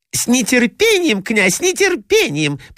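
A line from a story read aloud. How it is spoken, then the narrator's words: Squeaky voices. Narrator (Russian): пропищали другие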